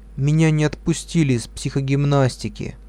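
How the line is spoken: Sad, dull voice. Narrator (Russian): Лиля грустная потухшим голосом сказала

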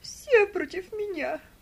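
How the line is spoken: Tearful wailing. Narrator (Russian): сквозь слезы причитала она

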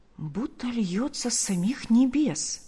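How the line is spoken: Very quiet speech. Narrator (Russian): произносит Марфа так тихо, чтобы не услышал муж

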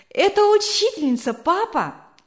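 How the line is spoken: Joyful exclamation. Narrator (Russian): вскричал Вилли радостно

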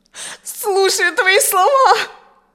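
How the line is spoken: Sobbing woman answering. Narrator (Russian): Продолжая рыдать, ответила женщина

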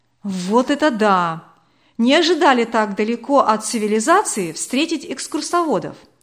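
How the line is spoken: Exclaimed. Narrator (Russian): воскликнул Владимир

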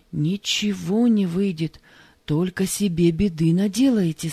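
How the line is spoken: Plain. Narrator (Russian): сказал он

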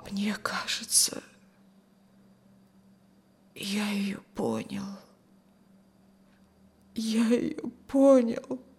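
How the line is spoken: Tearful whisper. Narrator (Russian): сквозь слезы прошептал Рюхин

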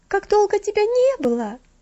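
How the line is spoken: Exclaiming, breaking off singing. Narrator (Russian): воскликнула Стефели, прервав свое пение

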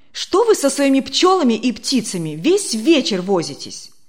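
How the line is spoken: Angry near-shout. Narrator (Russian): Почти закричал он сердито на Демьяна Лукича

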